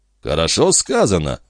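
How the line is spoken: Calm. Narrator (Russian): спокойно произнес Жильдас Трегомен

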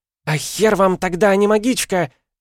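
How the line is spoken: Shrieking. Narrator (Russian): завизжала Инари

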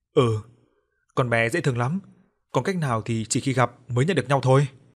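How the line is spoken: Laughing loudly. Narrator (Vietnamese): Anh Thành lúc đó chỉ cười lớn và trả lời

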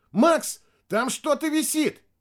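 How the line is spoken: Shouting. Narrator (Russian): Костя прокричал

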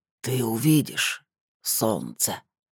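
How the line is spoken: Muffled, hollow voice. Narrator (Russian): глухо сказала

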